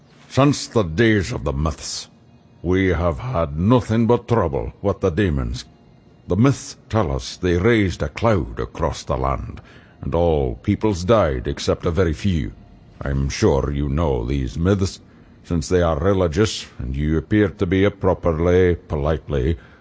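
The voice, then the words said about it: Throaty, clipped accented voice. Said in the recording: “the notes of the accent ... The chief talked in his throat and clipped off the words.”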